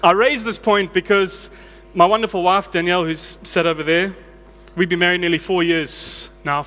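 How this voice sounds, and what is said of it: South African accent. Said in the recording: “the accent, it's not Australian ... It is, in fact, South African.”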